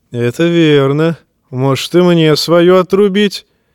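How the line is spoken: Laughing. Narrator (Russian): засмеялся Даван

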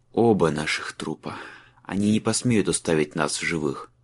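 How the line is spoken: Muttered reply. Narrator (Russian): пробормотал Майлз в ответ

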